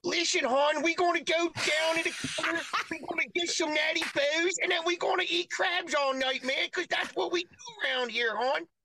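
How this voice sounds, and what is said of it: Put-on Baltimore accent. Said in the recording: “your Baltimore accent.”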